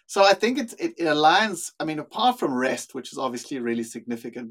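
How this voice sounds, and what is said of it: South African accent. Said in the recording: “You sound like you are from down under... My accent is actually South African... grew up in South Africa. That's the accent you're hearing”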